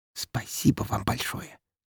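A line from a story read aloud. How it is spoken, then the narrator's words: Soft mocking whisper. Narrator (Russian): тут же тихонько прошептала мне в ухо Марина, явно пародируя Катю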